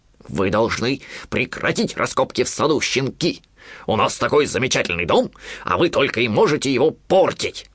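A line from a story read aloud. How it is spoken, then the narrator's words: Growling dog. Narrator (Russian): прорычал Понго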